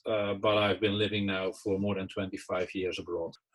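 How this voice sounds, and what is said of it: Dutch accent. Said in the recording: “if people aren't picking up the accent, that's a Dutch accent.”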